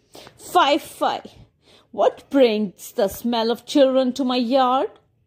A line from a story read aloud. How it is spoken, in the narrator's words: cackled